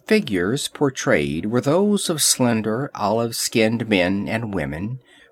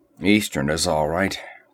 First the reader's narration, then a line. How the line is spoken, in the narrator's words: grunted Conan